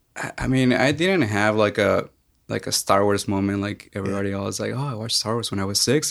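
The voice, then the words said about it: Mexican accent. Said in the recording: “I'm originally from Mexico. You haven't told by my accent yet”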